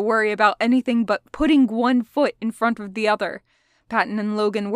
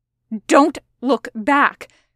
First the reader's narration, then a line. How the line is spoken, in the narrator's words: Roman snapped